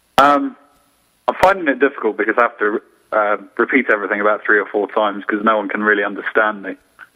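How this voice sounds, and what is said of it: English accent. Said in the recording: “I think it's my accent ... that's the worst thing you can say to an Englishman”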